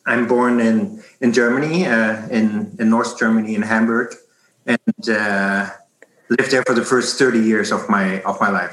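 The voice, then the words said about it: German-accented English. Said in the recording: “you might hear this from my accent”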